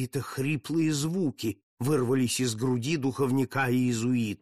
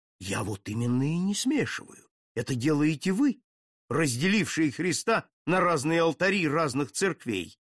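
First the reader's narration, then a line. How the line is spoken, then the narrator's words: Agitated reply. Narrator (Russian): В тон ему ответил взволнованно граф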